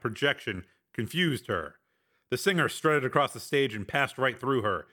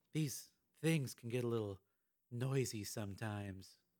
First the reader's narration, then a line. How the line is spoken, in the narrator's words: she said, her voice sultry